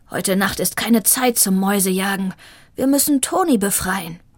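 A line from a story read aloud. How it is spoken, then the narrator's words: Growled. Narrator (German): knurrte Shiva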